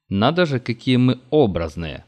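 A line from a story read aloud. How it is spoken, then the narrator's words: Snorting remark. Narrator (Russian): хмыкнул обер-лейтенант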